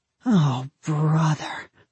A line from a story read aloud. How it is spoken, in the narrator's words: my father moaned